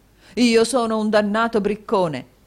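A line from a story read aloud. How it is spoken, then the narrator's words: Exclaiming. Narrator (Italian): esclamò il signor Mantalini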